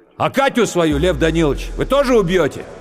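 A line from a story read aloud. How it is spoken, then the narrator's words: Drunken shout. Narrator (Russian): Пьяный, крикнул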